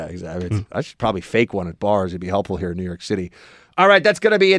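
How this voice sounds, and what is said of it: Usual voice. Nothing is said of it.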